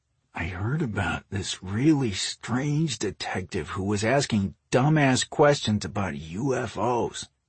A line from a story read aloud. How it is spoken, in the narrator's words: Ross murmured